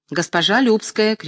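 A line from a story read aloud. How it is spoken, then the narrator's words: Shouting. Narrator (Russian): кричал режиссер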